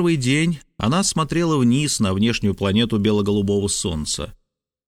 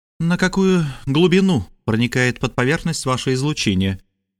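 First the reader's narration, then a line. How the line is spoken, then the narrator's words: Gloomy question over intercom. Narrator (Russian): мрачно спросила она по внутрикорабельному коммуникатору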